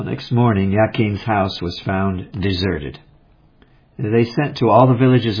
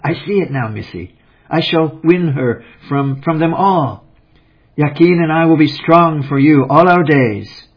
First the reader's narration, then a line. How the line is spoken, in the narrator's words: Nell Wong's eyes flashed as he cried